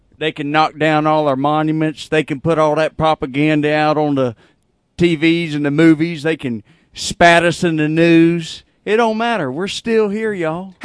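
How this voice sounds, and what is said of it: Strong Southern American accent. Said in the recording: “I thought I was Southern. How about this guy's accent?”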